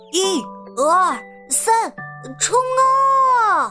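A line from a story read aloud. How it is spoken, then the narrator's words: Children's forceful unison shout. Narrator (Chinese): 小六子、小胖墩儿、鼻涕虫、小刺儿头、娇气包，憋足了劲儿，齐声喊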